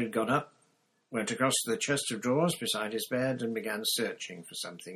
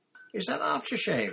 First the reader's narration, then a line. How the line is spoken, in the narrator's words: said Hermione in a slightly choked voice